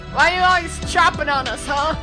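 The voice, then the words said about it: Deep male character voice. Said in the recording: “a deep voice of a man”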